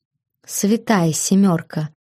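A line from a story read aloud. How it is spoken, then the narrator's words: Whispered obscenities. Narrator (Russian): он шептал мне непристойности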